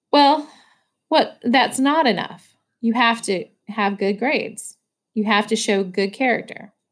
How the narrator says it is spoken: Dad answered calmly

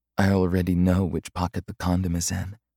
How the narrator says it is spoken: she whispered

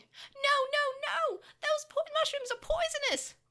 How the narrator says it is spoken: continued screaming

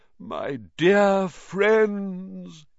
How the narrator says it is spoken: he said mournfully

